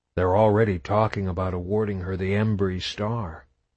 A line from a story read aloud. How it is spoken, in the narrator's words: Marcus said, almost under his breath